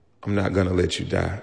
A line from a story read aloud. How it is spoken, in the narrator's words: in the most assuring voice, she said